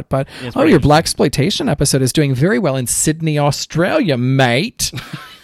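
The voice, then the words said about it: Terrible put-on Australian accent. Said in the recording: “Accent is terrible.”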